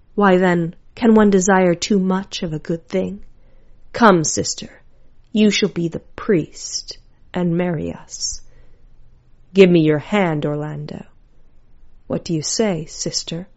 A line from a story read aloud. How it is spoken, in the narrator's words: Celia choked